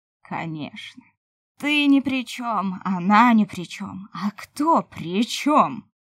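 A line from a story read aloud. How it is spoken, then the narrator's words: Ferocious growl. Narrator (Russian): Свирепо зарычал Дух Смерти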